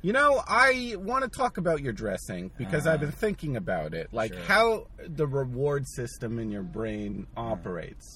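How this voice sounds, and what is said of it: New Jersey accent. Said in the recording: “my Jersey accent, it's hard to get that out”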